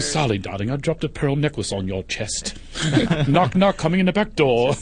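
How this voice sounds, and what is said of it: Put-on British accent. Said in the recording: “speak British ... British can't do porn ... it just doesn't sound right”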